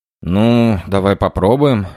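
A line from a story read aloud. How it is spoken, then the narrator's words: Amused snort. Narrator (Russian): хмыкнул командир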